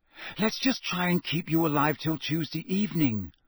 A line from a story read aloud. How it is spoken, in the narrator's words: she said desperately